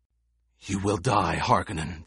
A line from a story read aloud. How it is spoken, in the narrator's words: the gladiator gasped